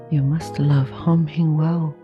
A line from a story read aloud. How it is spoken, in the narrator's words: murmured Ou Yam